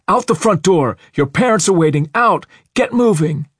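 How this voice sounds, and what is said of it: Hoarse shouting, screaming. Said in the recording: “His hoarse screams rang off the walls... he shouted”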